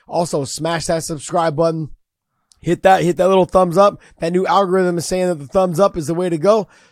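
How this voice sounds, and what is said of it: Raspy, hoarse voice. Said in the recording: “I'm sorry about my raspy ass voice today, but I was 7 hours yesterday of coaching kids... I was yelling so much”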